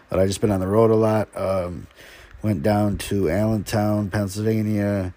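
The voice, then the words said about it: Slightly unwell-sounding voice. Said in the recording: “I'm a little under the weather, so forgive me if my voice sounds a little off”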